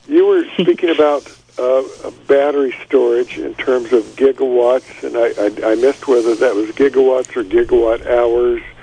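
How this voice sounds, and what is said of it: Speaks with a foreign accent. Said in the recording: “I apologize for my funny accent.”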